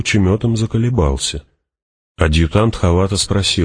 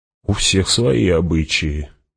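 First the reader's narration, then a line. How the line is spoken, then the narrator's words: Muttered. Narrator (Russian): пробормотал кто-то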